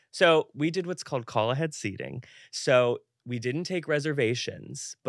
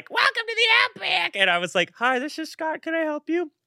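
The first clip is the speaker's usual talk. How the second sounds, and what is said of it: Little squeaky voice. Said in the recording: “my little squeaky voice”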